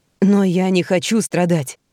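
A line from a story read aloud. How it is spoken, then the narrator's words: Hoarse objection. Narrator (Russian): хрипло возражает Генри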